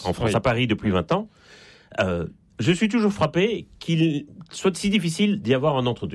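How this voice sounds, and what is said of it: Slight Belgian French accent. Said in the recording (French): “ça s'entend un peu d'ailleurs à mon accent. Je suis né en Belgique”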